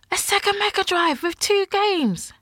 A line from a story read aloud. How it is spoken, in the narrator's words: My sister gasped